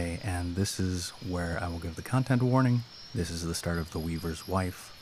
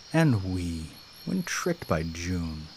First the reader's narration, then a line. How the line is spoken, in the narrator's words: With this repeated lamentation, he muttering